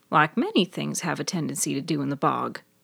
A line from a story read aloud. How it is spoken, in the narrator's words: Maddie muttered